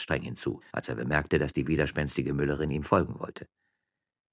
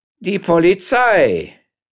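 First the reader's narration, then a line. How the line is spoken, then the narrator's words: Distant call beyond gate. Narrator (German): rief eine Stimme von der anderen Seite des Tores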